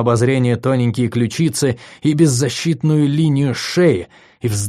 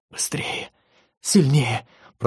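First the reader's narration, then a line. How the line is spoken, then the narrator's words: Whispering. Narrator (Russian): прошептала Виктория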